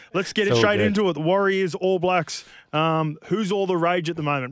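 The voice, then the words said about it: Accent. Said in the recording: “excuse the accent, brother. I've been over here for too long now.”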